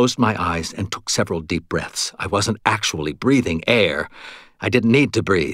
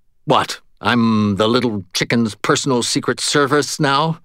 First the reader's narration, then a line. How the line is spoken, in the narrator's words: I grumbled